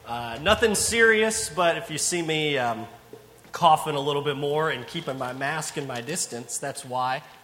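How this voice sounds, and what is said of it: Rough, slightly hoarse voice. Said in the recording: “my voice sounds a little rough this morning”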